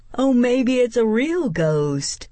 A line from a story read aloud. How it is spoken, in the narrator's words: Mouse said happily